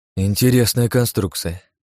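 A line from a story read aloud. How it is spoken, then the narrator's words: Sighing. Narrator (Russian): вздохнул я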